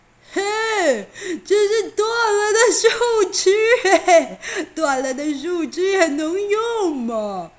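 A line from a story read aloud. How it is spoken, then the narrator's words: Louder mocking. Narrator (Chinese): 又更大声的嘲笑着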